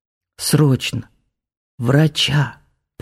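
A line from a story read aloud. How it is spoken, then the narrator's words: Hoarse rasp. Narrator (Russian): прохрипел он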